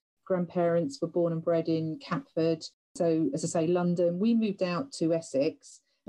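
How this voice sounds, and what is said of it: London accent. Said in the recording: “I am a London girl, you can probably tell by my accent.”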